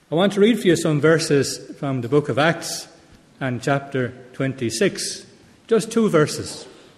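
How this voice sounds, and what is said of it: Irish Tipperary accent. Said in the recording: “my Tipperary brogue, my Tipperary accent”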